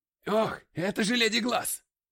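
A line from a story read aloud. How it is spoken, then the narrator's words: Shout from crowd. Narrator (Russian): крикнул кто-то в толпе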